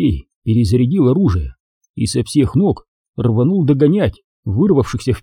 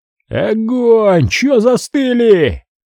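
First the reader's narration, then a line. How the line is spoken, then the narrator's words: Frantic yelling. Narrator (Russian): орал, как ненормальный Серега, пытаясь докричаться до парней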